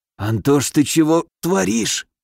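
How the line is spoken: Hoarse wheeze. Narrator (Russian): прохрипел я

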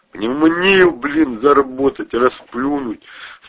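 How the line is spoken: Groaning. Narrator (Russian): стонал Протасов

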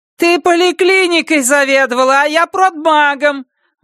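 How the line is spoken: Annoyed outburst. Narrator (Russian): выкрикнула раздосадованная Ульяна

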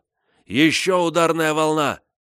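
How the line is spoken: Yelling. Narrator (Russian): Я заорал

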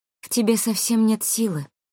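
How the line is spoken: Sad speech. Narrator (Russian): грустно произнесла

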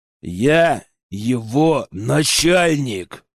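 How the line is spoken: Growled in someone's face. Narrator (Russian): рыкнул я ему в лицо

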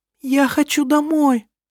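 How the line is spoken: Sobbing. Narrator (Russian): Всхлипывая, проговорила она

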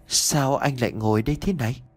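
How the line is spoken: Soft timid sobbing voice. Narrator (Vietnamese): một tiếng nói nhỏ nhẹ rụt rè pha lẫn cả tiếng nấc nghẹn ngào ai oán

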